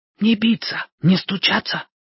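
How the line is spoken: Whisper. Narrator (Russian): прошептала она

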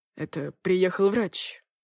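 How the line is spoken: Hoarse explaining. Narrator (Russian): пояснил Стас охрипшим голосом

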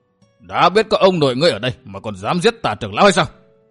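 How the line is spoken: Shouted. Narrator (Vietnamese): Lâm xương quát

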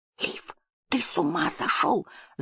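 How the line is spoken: Girl hissing. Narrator (Russian): зашипел на него девочка

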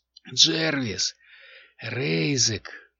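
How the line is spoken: Hoarse calling out. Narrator (Russian): хриплым голосом окликнул Айяр сородичей

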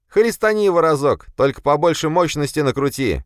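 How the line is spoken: Shout from a scrawny man. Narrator (Russian): крикнул щуплый

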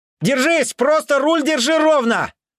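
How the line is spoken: Shouted. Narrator (Russian): крикнул

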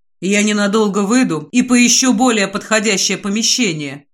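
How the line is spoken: Plain. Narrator (Russian): говорит Алистер

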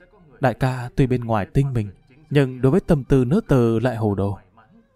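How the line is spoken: Soft sighing lament. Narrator (Vietnamese): Xào xào khẽ than thở

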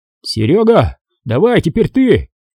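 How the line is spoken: Shouting. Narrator (Russian): крикнул Иван

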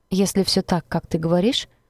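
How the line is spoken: Thoughtful drawl. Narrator (Russian): задумчиво протянул парень

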